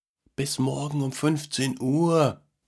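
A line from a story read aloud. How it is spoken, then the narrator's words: Tired call after someone. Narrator (German): rief der Mann ihm noch mit müder Stimme hinterher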